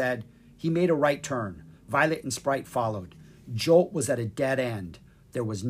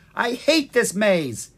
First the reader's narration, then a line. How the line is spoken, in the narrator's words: he shouted